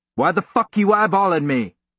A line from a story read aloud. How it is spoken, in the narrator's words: the photographer yelled